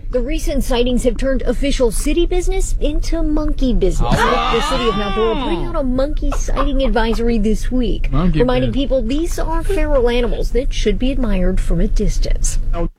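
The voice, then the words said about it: Nasal, whispery news-anchor voice. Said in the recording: “Was she holding her nose? ... That's her news voice. ... But why is she whispering?”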